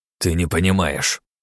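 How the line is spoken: Grumbling priest. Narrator (Russian): проворчал жрец

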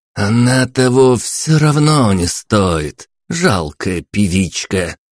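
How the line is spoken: Spiteful through clenched teeth. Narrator (Russian): процедил Иван сквозь зубы

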